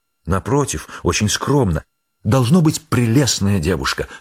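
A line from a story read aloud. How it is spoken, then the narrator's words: Grandiloquent exclamation. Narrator (Russian): с пафосом воскликнула Олимпиада Васильевна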